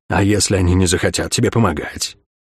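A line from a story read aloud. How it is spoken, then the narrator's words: Whispered. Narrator (Russian): прошептал мрак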